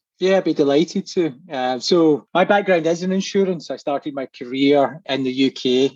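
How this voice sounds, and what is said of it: Scottish accent. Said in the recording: “it's a Scottish accent”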